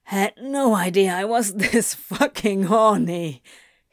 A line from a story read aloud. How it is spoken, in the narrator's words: he laughed